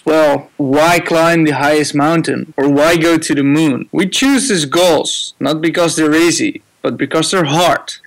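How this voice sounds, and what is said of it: Dutch accent in English. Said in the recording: “your Dutch accent”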